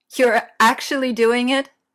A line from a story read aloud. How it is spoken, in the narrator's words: Leon asks, laughing so hard it makes the line go fuzzy